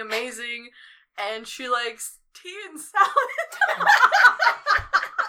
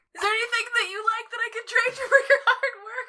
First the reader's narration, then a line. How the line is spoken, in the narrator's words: She yells into the door